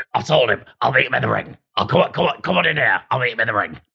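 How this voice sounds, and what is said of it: Imitates another person's voice. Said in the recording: “my impression of, of Tommy Cooper sounds like my impression of, of the boxer Tyson Fury”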